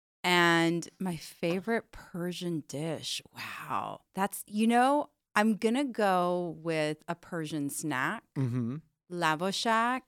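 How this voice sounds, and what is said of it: Valley accent. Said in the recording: “raised in the valley, which I think you can tell from the accent”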